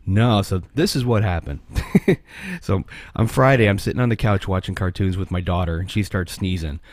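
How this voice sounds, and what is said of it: Sick, losing voice. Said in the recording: “I'm sick. So I'm losing my voice too”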